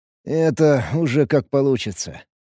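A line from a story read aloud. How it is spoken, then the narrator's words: Elated grumble. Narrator (Russian): Проворчал я, все еще кайфуя от притока энергии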